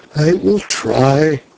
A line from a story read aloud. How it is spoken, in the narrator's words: he smiled faintly and murmured